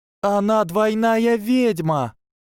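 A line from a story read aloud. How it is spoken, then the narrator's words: Shrieking, voice cracking. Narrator (Russian): Завопила Трейси настолько высоким голосом, что он сорвался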